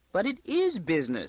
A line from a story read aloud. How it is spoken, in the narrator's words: she squeaked